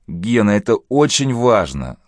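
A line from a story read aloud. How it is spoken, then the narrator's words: Tearful pleading. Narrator (Russian): слезно взмолился лейтенант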